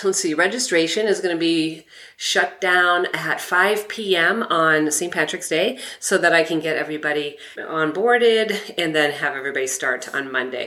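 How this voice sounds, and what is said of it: Slightly congested, sick-sounding voice. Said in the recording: “I have a little bit of a cold.”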